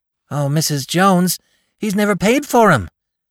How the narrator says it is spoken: cried Con

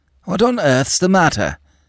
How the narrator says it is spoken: exclaimed the doctor

